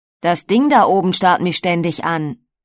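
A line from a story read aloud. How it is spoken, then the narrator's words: Calling out. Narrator (German): Gelegentlich rief er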